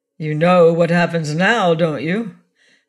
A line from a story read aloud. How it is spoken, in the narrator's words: The murderer from another world rocking with laughter